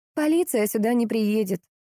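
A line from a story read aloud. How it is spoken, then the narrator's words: Sighing. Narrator (Russian): вздохнула Марина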